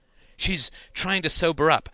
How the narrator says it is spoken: cried Janine

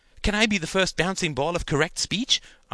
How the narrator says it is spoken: asked Gerald eagerly

